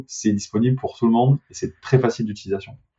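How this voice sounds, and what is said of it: Regional French accent, not Parisian. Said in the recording (French): “avec ton accent, on, s'en doutait que c'était pas que pour Paris”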